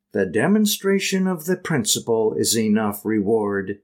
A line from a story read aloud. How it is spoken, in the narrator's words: said Mrs